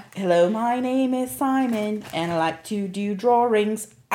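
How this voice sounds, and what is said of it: Imitated English accent of comedy character. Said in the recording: “I cannot do an English accent ... Saturday Night Live had a skit with Mike Myers, and his name was Simon ... I really can only do that because I know the song”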